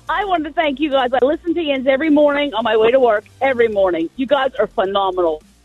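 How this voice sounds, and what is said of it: Pittsburgh accent. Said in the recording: “I think she's from Pittsburgh... I hear the accent.”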